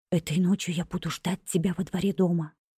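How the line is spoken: Whispered. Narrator (Russian): шепнул

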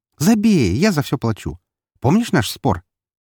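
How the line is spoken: Amused snort. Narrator (Russian): она весело фыркнула

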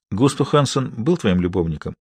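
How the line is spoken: Quiet voice. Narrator (Russian): Харри произнес это тихо

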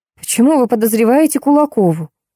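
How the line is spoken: Hoarse rasp. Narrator (Russian): прохрипела я

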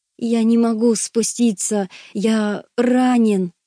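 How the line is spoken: Moaning. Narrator (Russian): застонал

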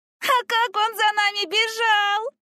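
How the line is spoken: Laughing, younger girl. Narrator (Russian): рассмеялась младшая

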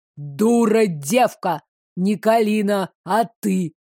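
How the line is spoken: Booming voice. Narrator (Russian): прогремел незнакомец

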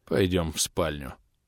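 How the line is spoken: Weary sigh. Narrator (Russian): вздохнул я, едва волоча ноги

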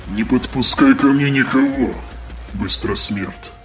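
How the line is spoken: Distorted voice, mage. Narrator (Russian): ответил искаженным голосом маг

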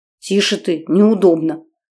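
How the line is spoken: Old woman hissing. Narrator (Russian): зашипела на нее бабка

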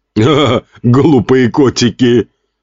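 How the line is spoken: Laughing. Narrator (Russian): Смеялся он над смешным видео

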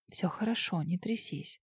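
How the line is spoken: Whisper. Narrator (Russian): прошептала

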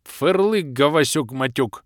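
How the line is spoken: Growling. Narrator (Russian): рыкнул Махруша

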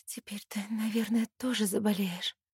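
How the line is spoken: Quiet. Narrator (Russian): тихо говорю я

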